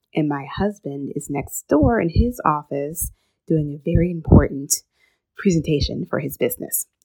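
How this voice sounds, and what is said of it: Whispering. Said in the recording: “if you're wondering why I'm whispering ... So this is why I'm whispering, but listen closely.”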